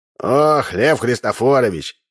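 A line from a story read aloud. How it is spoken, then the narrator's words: Sigh. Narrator (Russian): вздохнул Удалов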